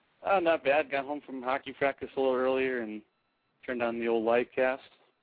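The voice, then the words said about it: Canadian-sounding accent. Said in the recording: “sound Canadian? ... So you inherited her Canadian accent.”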